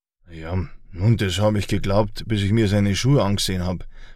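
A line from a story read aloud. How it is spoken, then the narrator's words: Dry remark. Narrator (German): bemerkte trocken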